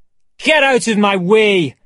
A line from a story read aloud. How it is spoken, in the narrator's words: shouted Montgomery